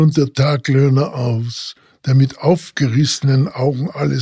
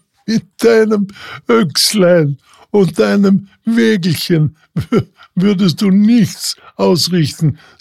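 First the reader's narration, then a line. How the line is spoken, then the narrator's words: Hunter, laughing. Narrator (German): sagte der Jäger lachend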